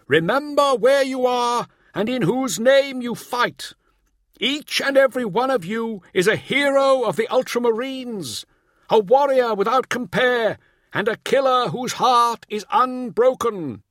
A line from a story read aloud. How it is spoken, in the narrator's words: bellowed Remus